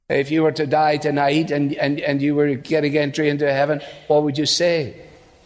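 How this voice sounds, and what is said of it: Scottish Glasgow accent. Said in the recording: “A Scot, born in Glasgow, if you're wondering where the accent is from.”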